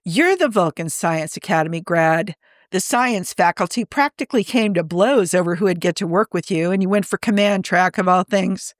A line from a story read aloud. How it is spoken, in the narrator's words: Admiral Bartlett bursts into laughter, saying